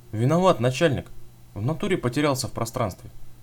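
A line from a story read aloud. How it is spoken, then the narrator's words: Calm reply. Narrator (Russian): Так же спокойно ответил Велес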